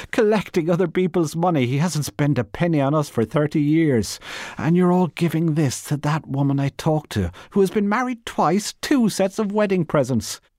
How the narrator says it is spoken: she cried

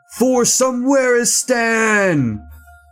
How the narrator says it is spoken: A single tear rolled down his cheek to get lost in the short but well-groomed beard, and through his clenched jaw, he shouted

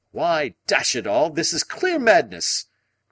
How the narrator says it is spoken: cried Lord John

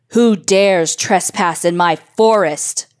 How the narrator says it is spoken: roared

